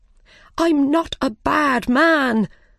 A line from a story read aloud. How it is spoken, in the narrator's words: the Mad Hatter cried